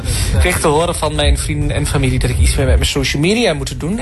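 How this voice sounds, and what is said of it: Strong regional Dutch accent. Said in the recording (Dutch): “aan dat accent snap ik meteen ... het oorste is weer gerepresent ... dat accent ... Dat is wel heel heftig.”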